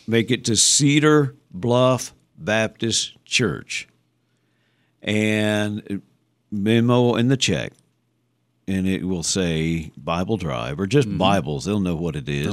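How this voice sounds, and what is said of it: Kentucky accent. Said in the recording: “my Kentucky accent”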